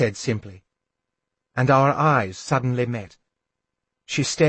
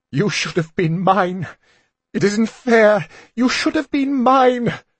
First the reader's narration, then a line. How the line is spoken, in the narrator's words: She cried out the words so fiercely